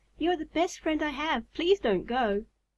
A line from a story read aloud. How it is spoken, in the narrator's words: cried